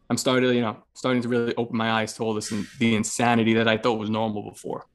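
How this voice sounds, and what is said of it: Noticeable northeastern US accent. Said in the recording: “I would guess by your accent... it's not like horrible, but I can hear it... one of those fucking northeastern motherfuckers”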